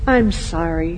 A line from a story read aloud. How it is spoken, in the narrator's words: he said gently